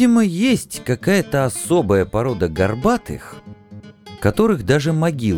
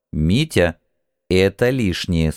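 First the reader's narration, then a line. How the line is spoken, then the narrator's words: Stern. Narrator (Russian): строго напомнил я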